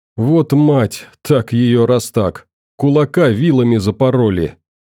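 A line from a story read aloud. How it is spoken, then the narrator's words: Nervous chuckle. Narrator (Russian): нервно хохотнул один из карасей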